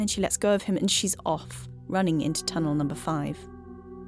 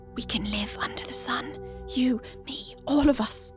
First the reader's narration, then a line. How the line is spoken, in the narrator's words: she whispers